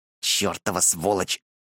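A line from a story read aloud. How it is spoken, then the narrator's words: Hissing. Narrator (Russian): шипел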